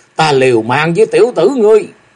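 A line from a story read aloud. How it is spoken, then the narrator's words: Roaring. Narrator (Vietnamese): lão gầm rú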